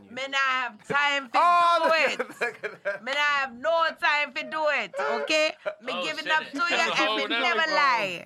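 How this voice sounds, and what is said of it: Sudden different accent, imitates another person. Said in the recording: “That's a whole nother accent ... Sound like Miss Cleo.”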